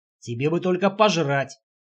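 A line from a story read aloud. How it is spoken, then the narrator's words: Grumbled. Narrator (Russian): проворчал Мэтт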